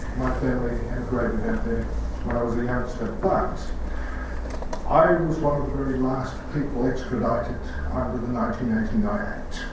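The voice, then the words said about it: Australian accent. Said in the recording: “I do have an Australian accent”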